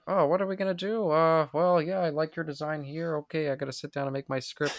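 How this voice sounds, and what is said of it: Imitates another person's voice. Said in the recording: “George Lucas impersonation”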